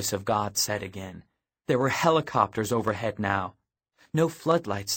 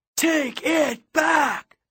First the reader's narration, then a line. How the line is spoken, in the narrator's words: the PA roared